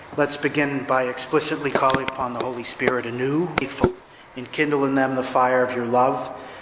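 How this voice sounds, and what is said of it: New England accent. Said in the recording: “the preacher with the New England accent”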